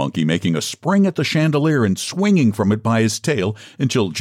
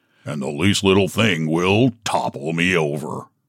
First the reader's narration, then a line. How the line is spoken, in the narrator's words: grumbled the donkey